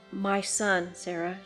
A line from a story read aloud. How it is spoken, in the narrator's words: she said in a low voice